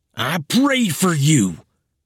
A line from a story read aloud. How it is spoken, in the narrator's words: he shouted